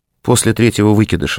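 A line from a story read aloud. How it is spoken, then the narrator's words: Calm. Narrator (Russian): спокойно сообщила Катя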